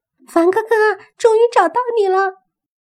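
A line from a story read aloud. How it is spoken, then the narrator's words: Pained loud shout. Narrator (Chinese): 莫凡莫名的心里一酸，大喊着说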